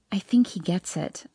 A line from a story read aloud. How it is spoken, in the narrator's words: I whisper to him